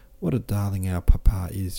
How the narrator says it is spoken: she cried

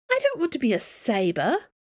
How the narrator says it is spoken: Dana said indignantly

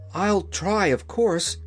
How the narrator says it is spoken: responded the Wheeler eagerly

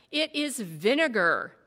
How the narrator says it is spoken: Melchior snarled, as though it were a curse

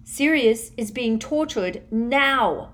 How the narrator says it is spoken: shouted Harry

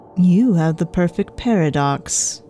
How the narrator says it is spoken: Vance said, his voice as steady as he could manage

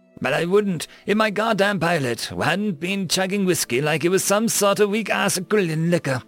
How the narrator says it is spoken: exclaimed Sam

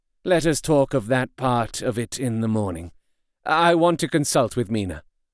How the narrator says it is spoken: Harker was silent for a while, and then said in a hollow voice

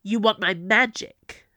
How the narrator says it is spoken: Camilla snarled

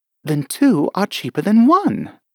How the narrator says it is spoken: Alice said in a surprised tone

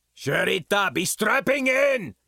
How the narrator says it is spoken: Bin Ragenstein bellowed from down in engineering

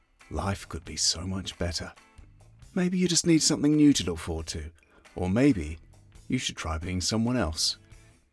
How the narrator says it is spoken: a tout might find the right ear to whisper

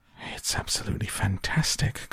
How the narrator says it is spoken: gasped Grandpa Joe

